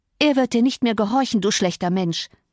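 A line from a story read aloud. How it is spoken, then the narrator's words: Plain. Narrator (German): sagte Cathy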